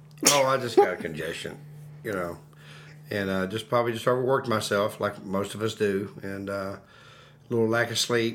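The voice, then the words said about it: Deeper, congested voice. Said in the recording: “a little bit under the weather ... tell in his voice. Actually, your voice sounds a little bit deeper”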